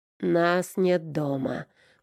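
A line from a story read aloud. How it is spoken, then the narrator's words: Moan into phone. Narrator (Russian): простонал в трубку Аверин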